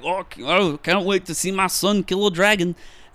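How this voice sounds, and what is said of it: Bad Scottish accent impression. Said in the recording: “terrible Scottish Gerard Butler impression”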